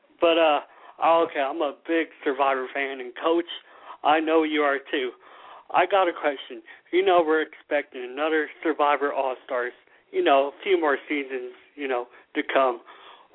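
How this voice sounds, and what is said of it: Southern American accent. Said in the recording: “Sounds like a Southern accent there. ... it's just my regular accent.”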